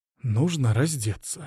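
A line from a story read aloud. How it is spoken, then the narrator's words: Whisper. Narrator (Russian): шепнула настоятельница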